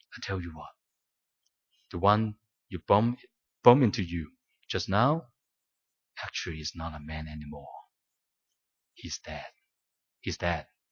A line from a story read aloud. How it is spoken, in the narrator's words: the Lord of Harvest took the journalist aside and softly told him